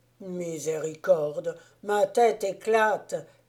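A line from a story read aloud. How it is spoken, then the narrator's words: Exclaiming. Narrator (French): s'écria-t-il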